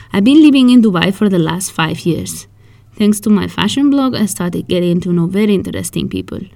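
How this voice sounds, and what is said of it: Spanish accent in English. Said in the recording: “By the accent, you might know already that I am Spanish.”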